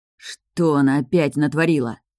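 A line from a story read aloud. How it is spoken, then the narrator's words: Angry thought. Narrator (Russian): зло подумал я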